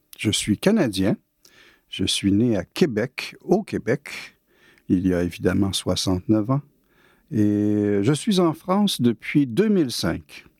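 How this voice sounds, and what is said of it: Québécois French accent. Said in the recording (French): “D'après mon accent, vous allez bien deviner que je ne suis pas français ... j'étais un peu trop formaté pour changer mon accent”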